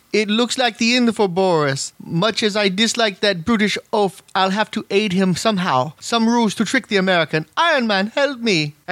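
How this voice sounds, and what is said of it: Vague mixed European mock-Russian accent. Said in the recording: “do the accent ... It's not even really a Russian accent. It's just this weird goulash of European-ish-y stuff.”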